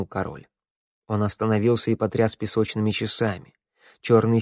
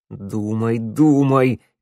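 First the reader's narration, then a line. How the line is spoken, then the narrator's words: Shouting at himself. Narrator (Russian): крикнул на себя Теодор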